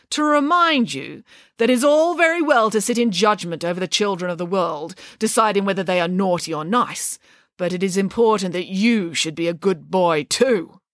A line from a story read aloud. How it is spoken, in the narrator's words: said Nanny Piggins sternly